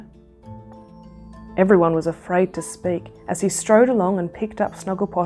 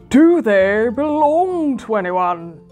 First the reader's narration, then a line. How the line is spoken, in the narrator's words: he roared